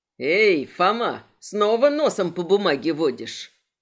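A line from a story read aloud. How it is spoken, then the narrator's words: Chuckling. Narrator (Russian): Брат Морли хохотнул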